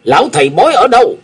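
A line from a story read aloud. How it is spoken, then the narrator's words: Big man barking question. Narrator (Vietnamese): Gã đại hán đi đầu nhìn xéo tên tiểu nhị rồi quát hỏi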